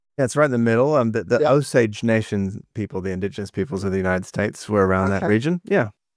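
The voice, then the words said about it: American accent. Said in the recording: “I can hear your American accent.”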